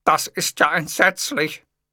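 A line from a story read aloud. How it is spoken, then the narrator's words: Groaning. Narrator (German): stöhnte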